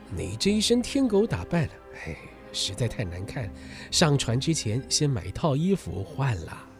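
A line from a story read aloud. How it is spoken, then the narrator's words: Calm, indifferent. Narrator (Chinese): 霍格 并没有生气，只是淡淡的说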